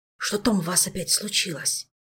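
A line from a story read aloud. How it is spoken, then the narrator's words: Whispered question. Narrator (Russian): шепотом поинтересовался он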